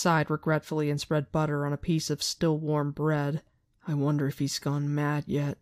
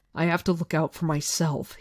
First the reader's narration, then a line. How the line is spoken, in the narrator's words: he said angrily